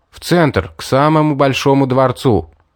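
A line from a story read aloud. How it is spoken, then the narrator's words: Shouting. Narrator (Russian): крикнул Мэри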